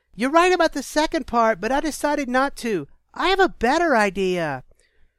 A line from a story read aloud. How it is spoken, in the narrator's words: Makwa smirked and called to the man over the yelling